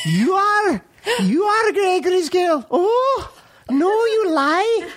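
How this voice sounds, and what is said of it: Put-on Scottish accent, childlike. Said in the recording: “whenever I do Scottish accent, I've got to do it like the characters in Gregory's Girl who were all like 12-year-olds.”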